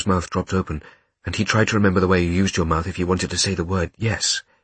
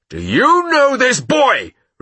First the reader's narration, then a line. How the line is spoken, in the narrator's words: repeated Kotler in a louder voice